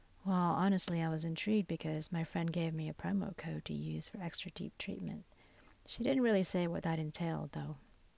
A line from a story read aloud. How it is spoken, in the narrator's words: nearly half asleep from being so relaxed and muttered